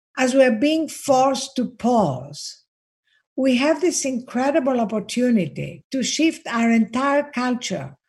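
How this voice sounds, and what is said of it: Greek accent. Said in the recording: “I'm Greek, as you can hear from my accent”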